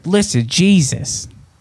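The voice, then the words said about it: Imitated voice, almost Italian accent. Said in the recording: “You know what he sounds like? Harvey Keitel. ... it's almost an Italian accent.”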